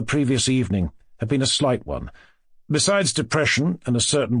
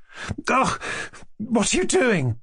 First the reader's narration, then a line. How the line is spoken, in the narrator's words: cried, in dismay